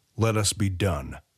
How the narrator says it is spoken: The smock growled like a feral animal

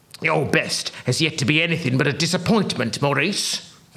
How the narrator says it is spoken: grumbled Freakfinder

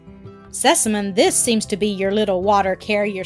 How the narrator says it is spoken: said the doctor

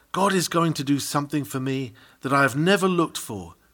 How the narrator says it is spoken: He who whispers to himself

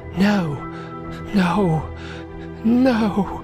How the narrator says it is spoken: He kept whispering

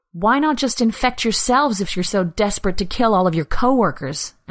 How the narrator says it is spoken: Anna spat out, anger rising through the numbness she'd been living in for weeks

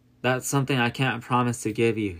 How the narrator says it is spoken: he replied

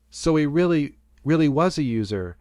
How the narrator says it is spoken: says

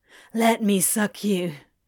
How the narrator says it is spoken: he asked, his voice harsh and pleading

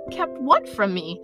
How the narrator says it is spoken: Harry said eagerly

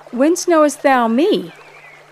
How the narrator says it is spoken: In surprise, Nathanael exclaimed

